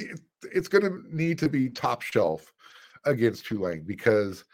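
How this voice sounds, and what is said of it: Usual voice. Nothing is said of it.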